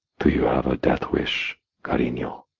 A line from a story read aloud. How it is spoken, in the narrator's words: murmuring